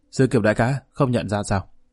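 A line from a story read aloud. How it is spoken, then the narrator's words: Smiling. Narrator (Vietnamese): Niệm Băng mỉm cười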